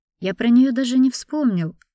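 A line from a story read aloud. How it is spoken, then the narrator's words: Exclamation. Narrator (Russian): воскликнул Суворин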